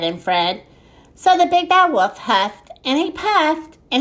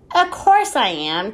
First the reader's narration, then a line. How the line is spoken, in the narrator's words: chuckled Ned